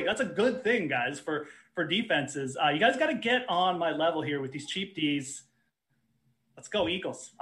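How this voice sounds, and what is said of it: Sarcastic delivery. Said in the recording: “I know I'm being sarcastic a little bit here.”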